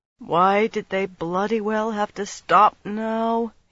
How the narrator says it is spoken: he moaned, so softly she barely heard

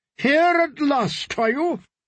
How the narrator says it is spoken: boomed his aunt

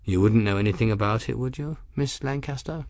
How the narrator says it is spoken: His voice was calm, even whimsical, but there was something in his words that carried the hint of steel

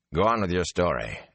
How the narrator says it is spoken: Elias told Rain gruffly

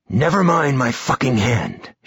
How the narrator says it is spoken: she snapped

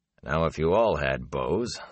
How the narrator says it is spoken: the warder said dryly

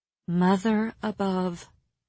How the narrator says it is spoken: Nesta said softly

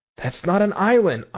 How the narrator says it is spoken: I cried skeptically

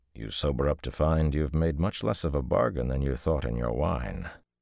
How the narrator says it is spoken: he added dryly

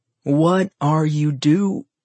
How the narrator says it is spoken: Elle jumped and screamed so loudly she practically pissed herself

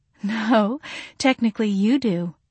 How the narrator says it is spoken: she said, giggling

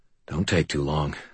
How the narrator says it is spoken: I said quietly

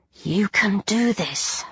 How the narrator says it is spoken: I murmured

